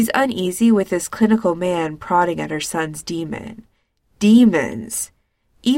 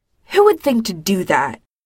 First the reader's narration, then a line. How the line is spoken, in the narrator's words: Winona snaps